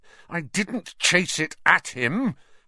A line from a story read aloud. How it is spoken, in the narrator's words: Harry said, his voice shaking with anger